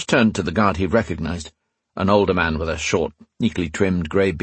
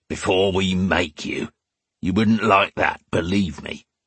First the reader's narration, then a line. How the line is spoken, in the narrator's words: another of the guards growled